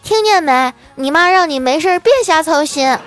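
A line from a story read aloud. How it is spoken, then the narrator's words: Shouting. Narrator (Chinese): 这小妮子……冲我嫂子嚷嚷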